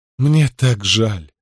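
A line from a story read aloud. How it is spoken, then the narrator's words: Sigh. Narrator (Russian): вздохнула она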